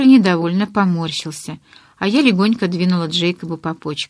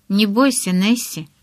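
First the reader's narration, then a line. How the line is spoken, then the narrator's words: Whisper in ear. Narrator (Russian): прошептал он девочке на ухо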